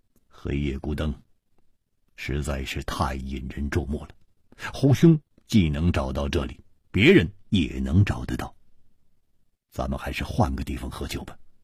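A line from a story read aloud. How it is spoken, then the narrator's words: Deep, grave voice. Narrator (Chinese): 戴独行沉声说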